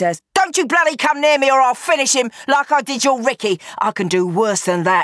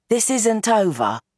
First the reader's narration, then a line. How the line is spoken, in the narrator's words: Roxy says quietly